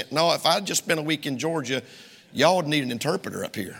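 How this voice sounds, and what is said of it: Southern US drawl. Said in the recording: “my drawl is worse... My accent is worse... preacher, you got a pretty bad accent”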